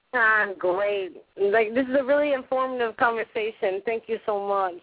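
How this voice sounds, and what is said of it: Speaker with a noticeable accent. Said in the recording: “I have an accent, so I can sound weird saying it.”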